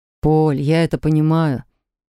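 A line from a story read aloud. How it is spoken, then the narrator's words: Sad husband. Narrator (Russian): грустно сказал муж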